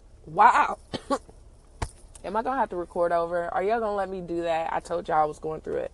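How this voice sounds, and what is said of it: Sick, gross-sounding voice. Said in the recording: “Y'all hear it in my voice ... that sound gross”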